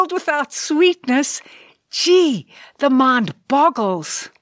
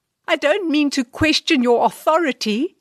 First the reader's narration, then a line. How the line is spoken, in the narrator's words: squeaked the Sarge a little nervously